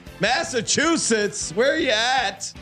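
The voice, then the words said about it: Put-on Boston accent. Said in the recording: “Listen to that Boston accent.”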